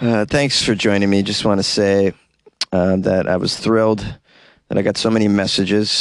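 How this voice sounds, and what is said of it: Usual voice. Nothing is said of it.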